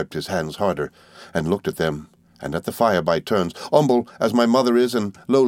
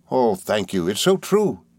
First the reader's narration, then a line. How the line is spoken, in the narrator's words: he cried